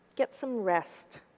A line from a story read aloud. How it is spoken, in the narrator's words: said softly